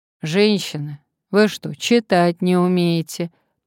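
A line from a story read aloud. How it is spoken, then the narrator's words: Gloomy mumble. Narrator (Russian): промямлил он мрачно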